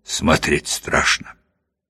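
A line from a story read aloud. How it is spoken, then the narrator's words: Mumbling. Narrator (Russian): Клетчатый бормочет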